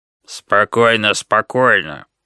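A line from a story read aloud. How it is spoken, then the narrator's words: Growl of hulking creature. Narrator (Russian): прорычала туша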